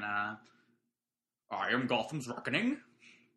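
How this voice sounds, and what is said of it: Imitates a movie villain's voice. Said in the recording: “best Bane impression”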